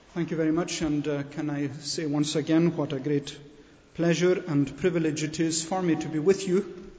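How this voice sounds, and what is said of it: Scottish accent. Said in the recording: “I hope that my accent does not come in between me and your reception of my message ... my own home congregation in Scotland”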